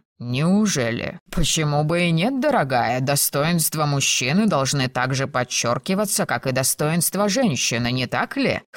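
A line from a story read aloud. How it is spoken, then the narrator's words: Scoffing. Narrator (Russian): хмыкнул Томас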